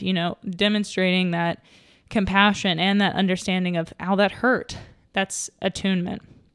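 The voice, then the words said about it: Out of breath speaking. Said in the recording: “I don't know why I'm so out of breath. I'm just sitting.”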